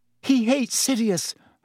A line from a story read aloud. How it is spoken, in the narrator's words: Hermione said desperately